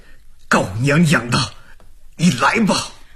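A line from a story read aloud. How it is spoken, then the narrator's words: Gritted-teeth shout. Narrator (Chinese): 丑虎一咬牙喊了一声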